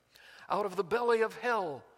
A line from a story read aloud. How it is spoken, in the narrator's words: cried I